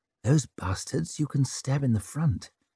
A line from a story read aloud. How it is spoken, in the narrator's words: murmured Savine